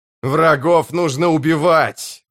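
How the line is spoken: Growled. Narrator (Russian): прорычал Тиблор

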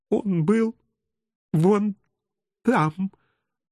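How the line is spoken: Sobbing woman. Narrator (Russian): проговорила всхлипывающая женщина

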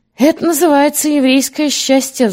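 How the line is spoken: Sighing. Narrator (Russian): вздохнул Колизей

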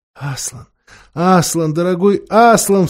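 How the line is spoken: Sobbing. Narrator (Russian): всхлипывала Люси

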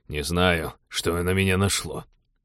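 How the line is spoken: Dejected, sinking voice. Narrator (Russian): упавшим голосом повторил Теодор

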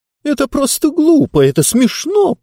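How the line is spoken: Squeaky. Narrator (Russian): пропищала книга таким тоном

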